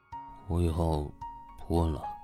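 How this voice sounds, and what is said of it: Low, meek, contrite voice. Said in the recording (Chinese): “低低的声音说，像是老师面前认错的小学生似的”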